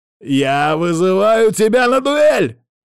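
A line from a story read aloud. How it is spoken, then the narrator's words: Loud shout. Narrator (Russian): прокричал он, чтобы услышал не только я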